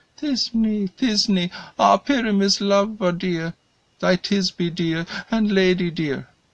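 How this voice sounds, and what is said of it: Tiny high put-on woman's voice. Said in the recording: “speak in a monstrous little voice”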